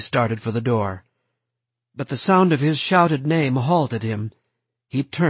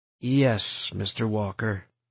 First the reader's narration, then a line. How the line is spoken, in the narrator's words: Stoner said wearily